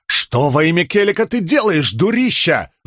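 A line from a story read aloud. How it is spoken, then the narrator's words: Yelling. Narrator (Russian): завопил он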